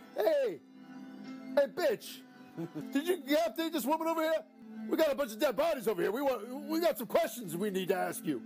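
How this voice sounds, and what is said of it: Put-on voice of a cop. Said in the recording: “Let's do the voices for the cops.”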